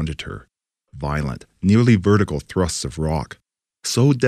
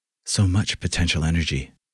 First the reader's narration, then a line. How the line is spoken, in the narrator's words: whispered in awe